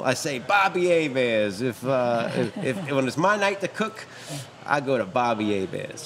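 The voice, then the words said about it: Heavy New Orleans accent. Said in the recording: “I poured on the New Orleans accent”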